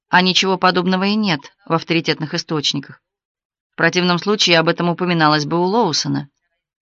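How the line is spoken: Calm. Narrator (Russian): сказала спокойно

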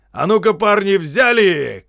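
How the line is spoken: Shouting. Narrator (Russian): крикнул он

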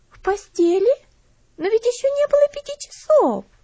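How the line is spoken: Shocked exclamation. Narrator (Russian): воскликнула Луси, пораженная услышанным

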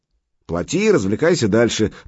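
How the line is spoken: Grumbled. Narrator (Russian): проворчала азиатка

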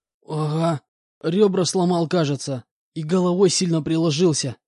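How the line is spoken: Groaned. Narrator (Russian): простонал он мне в ответ

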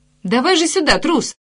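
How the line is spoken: Shout. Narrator (Russian): крикнула ему Джулия

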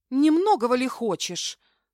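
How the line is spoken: Scoffing snort, frightened. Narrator (Russian): фыркнула я, хотя меня трясло от испуга

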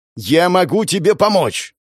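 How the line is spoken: Barked shout. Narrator (Russian): гаркнул я

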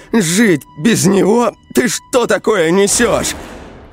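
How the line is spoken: Trembling shout. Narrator (Russian): Анфиса мелко задрожала, закричала

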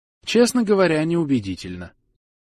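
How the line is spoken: Even, level voice. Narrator (Russian): ровным голосом сказала Шастри

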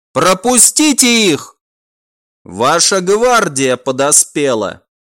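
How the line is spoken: Shouted. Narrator (Russian): Некромант прокричал

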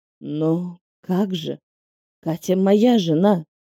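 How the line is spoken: Man's whisper. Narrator (Russian): прошептал мой бывший муженек

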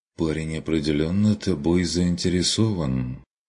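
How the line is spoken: Quiet, strained remark. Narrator (Russian): заметил Курт негромко, с усилием отвлекшись от безрадостных мыслей

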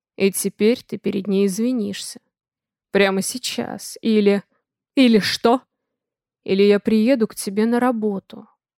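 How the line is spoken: Bored tone. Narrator (Russian): скучающим тоном сообщает Дима

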